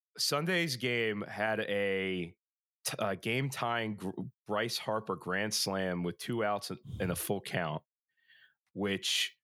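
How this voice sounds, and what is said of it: Rough, worn-out voice. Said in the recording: “my voice is not ... It's a little shitty.”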